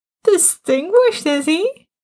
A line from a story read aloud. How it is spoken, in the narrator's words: Martin laughed